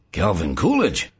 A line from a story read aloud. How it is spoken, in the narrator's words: Joe Malik exclaimed